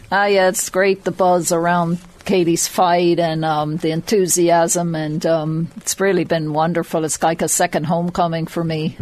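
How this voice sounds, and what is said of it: Irish accent blended with American. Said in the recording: “I can hear the accent over. ... It's all muddled up. ... the Meath has been knocked out of you a little bit.”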